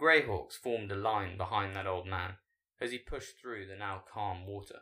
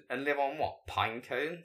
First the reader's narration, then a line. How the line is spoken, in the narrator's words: Zack scoffed